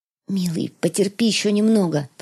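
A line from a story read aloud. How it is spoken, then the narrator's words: Whisper. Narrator (Russian): прошептала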